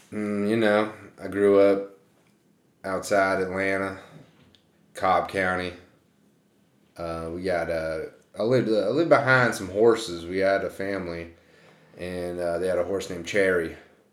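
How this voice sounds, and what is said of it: Put-on Southern US accent. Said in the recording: “What's this voice you're doing? ... He's never used this voice before ... I'm from Georgia ... That sounds more like a Tennessee accent.”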